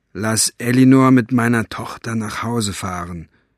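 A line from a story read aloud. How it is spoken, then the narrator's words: Plain. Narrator (German): sagte Mo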